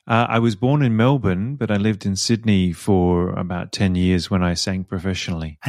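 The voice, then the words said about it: Australian accent. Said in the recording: “your accent is Australian.”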